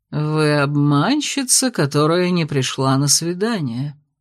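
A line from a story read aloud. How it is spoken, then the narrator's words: Silky, enveloping voice. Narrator (Russian): обволакивающим голосом сообщил он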